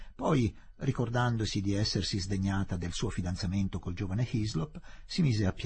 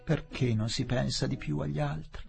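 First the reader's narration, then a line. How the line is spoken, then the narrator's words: Sighing. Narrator (Italian): sospirava la gaudente Miss Derek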